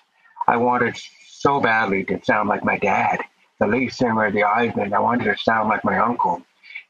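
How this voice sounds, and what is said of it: Deaf accent. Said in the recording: “my unique voice and my deaf accent”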